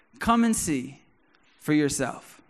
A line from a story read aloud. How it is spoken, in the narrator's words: Philip replied